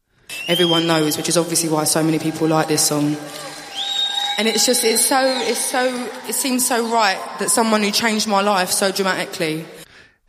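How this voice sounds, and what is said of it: Strong Essex accent. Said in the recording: “her accent is, yeah? ... She's like really eloquent, very articulate, but she's got that really strong Essex accent.”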